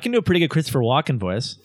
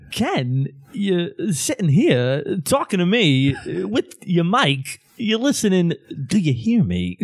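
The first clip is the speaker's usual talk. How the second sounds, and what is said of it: Imitates another person's voice. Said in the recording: “my Christopher Walken impression ... No, that actually was not bad. That was actually not bad.”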